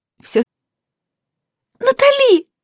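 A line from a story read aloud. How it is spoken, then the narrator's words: Joyful squeal. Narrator (Russian): радостно взвизгнула Китти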